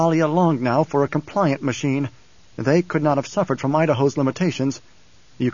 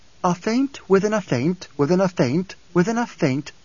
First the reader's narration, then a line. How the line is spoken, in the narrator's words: Irulan said